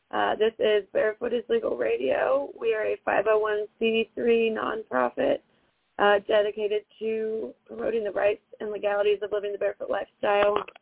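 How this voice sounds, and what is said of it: Hoarse, nearly lost voice. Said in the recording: “My voice is bye-bye ... my throat hurts”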